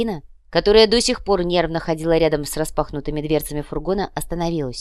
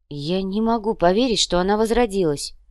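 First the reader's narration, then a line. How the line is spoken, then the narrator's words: Sigh. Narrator (Russian): вздохнула Верея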